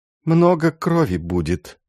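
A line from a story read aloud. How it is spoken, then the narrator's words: Sighing. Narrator (Russian): вздохнула Роза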